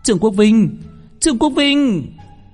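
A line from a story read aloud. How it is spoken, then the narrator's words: Crowd chanting loudly. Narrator (Vietnamese): Âm thanh vang lên toàn trường, toàn bộ yêu ma quỷ quái cùng đong đưa que huỳnh quang hò hét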